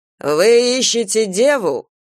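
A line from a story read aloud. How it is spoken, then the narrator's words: Shouted question. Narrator (Russian): выкрикнул Кастел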